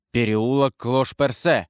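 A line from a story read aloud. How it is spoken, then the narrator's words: Exclaimed. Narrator (Russian): воскликнул Карл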